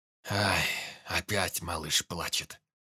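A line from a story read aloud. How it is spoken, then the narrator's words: Sigh. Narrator (Russian): вздохнул Михайлович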